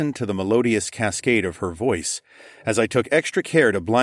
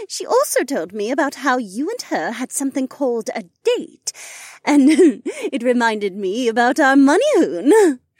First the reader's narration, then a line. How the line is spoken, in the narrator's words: she giggled